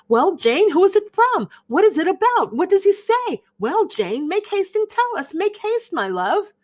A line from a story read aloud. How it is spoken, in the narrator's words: Bennet's eyes sparkled with pleasure, and she was eagerly calling out